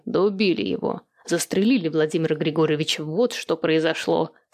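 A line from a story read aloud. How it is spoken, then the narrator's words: Indignant exclamation. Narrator (Russian): С негодованием воскликнул Тимофей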